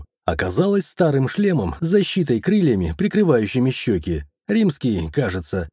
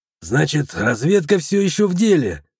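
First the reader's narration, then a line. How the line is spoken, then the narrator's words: Wry snort. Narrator (Russian): хмыкнул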